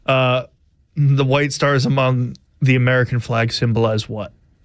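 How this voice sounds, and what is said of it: Flat, monotone, unenthusiastic delivery. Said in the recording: “You sound like you have no enthusiasm for this quiz whatsoever ... Very monotone ... get some oomph”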